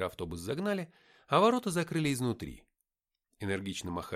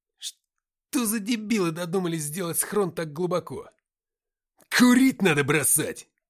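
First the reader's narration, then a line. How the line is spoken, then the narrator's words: Gruff bark. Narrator (Russian): Рявкнул Уфимцев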